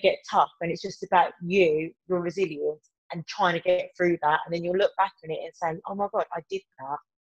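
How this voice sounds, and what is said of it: Birmingham (Brummie) English accent. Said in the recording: “my terrible Brummy accent”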